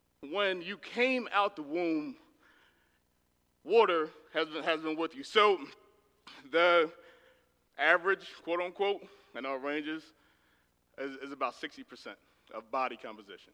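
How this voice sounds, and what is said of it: Northern accent. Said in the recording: “please forgive my northern accent”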